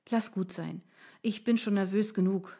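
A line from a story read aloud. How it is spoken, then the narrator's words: Sighing. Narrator (German): seufzte ich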